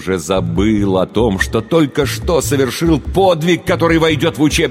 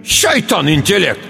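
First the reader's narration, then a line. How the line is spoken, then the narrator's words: Shouted. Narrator (Russian): крикнул Алибек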